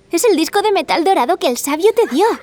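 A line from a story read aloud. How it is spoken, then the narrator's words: Shouting. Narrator (Spanish): gritó Emily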